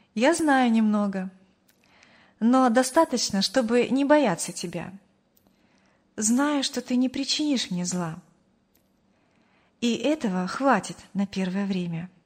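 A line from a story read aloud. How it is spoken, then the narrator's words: Calm young woman. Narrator (Russian): спокойно ответила девушка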